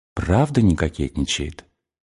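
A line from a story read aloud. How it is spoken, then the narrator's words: Whispered again. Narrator (Russian): Она снова прошептала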